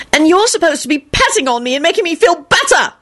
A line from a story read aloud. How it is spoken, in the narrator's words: she screamed at Lupin, not shouting at everybody